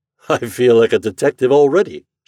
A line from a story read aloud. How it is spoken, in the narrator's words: Shorthouse laughed